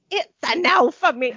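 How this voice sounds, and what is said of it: Put-on accent. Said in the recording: “We're back to the accent... Sound like Helena Bonham Carter”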